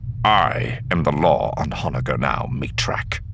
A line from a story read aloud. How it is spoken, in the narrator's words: said, his voice quiet and deadly